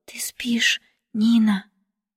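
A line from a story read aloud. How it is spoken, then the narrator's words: Exhausted soft whisper. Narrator (Russian): бледная, измученная, она тихо шепнула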